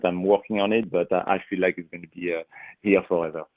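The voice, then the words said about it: Non-native English accent. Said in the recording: “speaking English as my second language ... I still have an accent”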